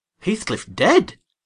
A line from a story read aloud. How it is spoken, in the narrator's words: I exclaimed, astonished